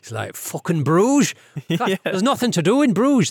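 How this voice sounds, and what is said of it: Poor put-on Irish accent. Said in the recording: “That was a terrible Irish accent... trying to do Colin Farrell doing an Irish accent. It didn't work very well.”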